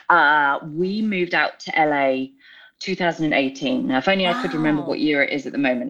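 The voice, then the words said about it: British accent. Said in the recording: “I am not from the US, in case my accent didn't give it away. I'm from the UK”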